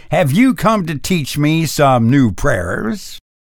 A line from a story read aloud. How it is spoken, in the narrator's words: sneered